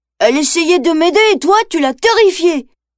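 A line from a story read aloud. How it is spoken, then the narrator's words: Angry exclamation. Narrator (French): s'écrie Mowgli en colère contre Baloo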